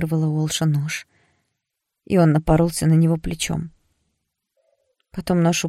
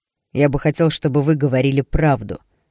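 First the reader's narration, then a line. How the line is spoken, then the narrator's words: Man barking. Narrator (Russian): рявкнул мужчина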